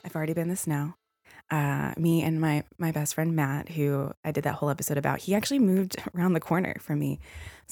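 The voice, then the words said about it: Talking very fast, jittery. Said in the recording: “if you can't already tell, it's why I'm talking so fast. I'm just kind of like shaking as I record this.”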